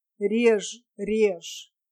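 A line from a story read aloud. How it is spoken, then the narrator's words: Languid, repeating. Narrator (Russian): Трималхион все время разнеженным голосом повторял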